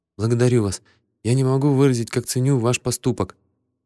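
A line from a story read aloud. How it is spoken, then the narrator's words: Timid young woman. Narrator (Russian): Девушка робко произнесла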